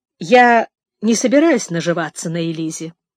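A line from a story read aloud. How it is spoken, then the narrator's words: Dry. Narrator (Russian): сухо сказал мистер Шелби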